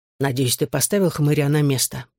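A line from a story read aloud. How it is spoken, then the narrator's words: Hissing. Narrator (Russian): прошипел я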